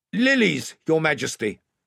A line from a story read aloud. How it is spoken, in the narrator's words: shouted Ranulph, standing up in the bows